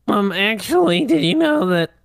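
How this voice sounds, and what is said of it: Nerdy character voice. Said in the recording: “That's my nerd voice.”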